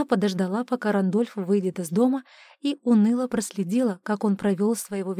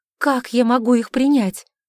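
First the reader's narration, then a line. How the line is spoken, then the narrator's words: Pleading. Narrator (Russian): взмолилась Александра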